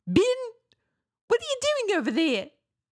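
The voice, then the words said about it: Imitated New Zealand accent. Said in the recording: “A New Zealand accent ... all the like all the E sounds and the longer vowel sounds ... just kind of like shorten ... become like I and E”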